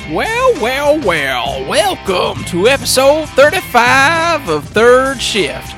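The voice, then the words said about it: Hillbilly prospector accent drifting Russian. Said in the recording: “We were going old prospector slash hillbilly, and then you went like sort of Russian.”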